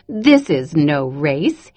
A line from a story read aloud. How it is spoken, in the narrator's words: giggled